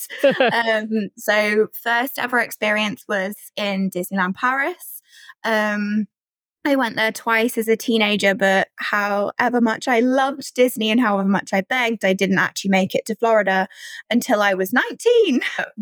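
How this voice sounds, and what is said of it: British accent. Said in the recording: “I live in the UK, if you can't tell from the accent.”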